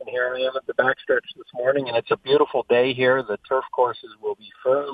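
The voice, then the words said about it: Excited, upbeat voice. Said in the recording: “you can hear the excitement in my voice.”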